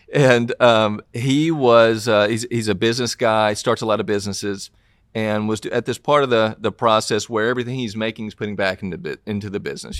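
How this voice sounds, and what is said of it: Southern US accent. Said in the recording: “I'm ... from Tennessee, and obviously from my accent, you can tell I'm from the South”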